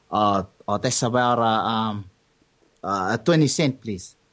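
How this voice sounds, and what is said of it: Put-on Samoan accent. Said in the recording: “this is my best Samoan accent.”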